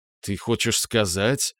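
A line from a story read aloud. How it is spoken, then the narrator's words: Puzzled mumble. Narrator (Russian): пробормотал Володя, тужась сообразить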